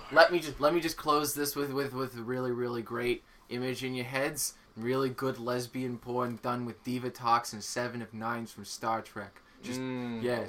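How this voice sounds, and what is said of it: Put-on 70s porn director voice. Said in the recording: “What accent are you trying to pull? ... That's not you talking. ... He's 70s porn director.”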